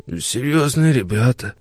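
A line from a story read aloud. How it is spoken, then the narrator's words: Creaky voice. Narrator (Russian): проскрипел Фроди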